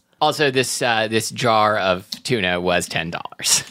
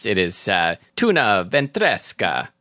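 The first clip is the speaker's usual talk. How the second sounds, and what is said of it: Put-on Transylvanian-sounding accent. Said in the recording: “That was more of like a Transylvanian accent than Italian.”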